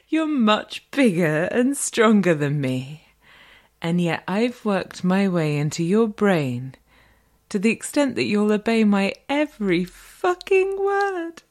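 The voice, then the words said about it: Refined British accent. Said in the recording (French): “le bel accent britannique et un peu distingué de la dame”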